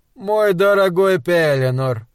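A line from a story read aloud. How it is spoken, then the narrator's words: Warm purring. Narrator (Russian): Промурлыкал Кернс с теплотой в голосе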